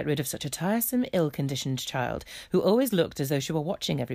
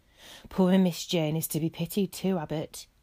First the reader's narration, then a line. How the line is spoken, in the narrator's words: sighed and said